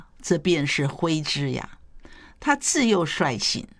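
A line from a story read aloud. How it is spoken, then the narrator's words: Laughing. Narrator (Chinese): 谢安却笑了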